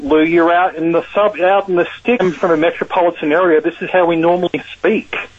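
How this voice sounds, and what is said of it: Australian accent. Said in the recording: “The accent is from Australia. ... the Australian accent ... If you have a thick Australian accent”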